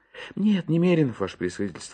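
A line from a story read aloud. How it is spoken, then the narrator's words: Guilty sigh. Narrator (Russian): ответил Иван Евсеевич и виновато вздохнул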